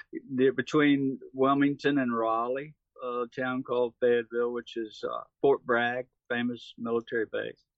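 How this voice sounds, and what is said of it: North Carolina Southern accent. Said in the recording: “I'm from North Carolina, if you wonder about this accent”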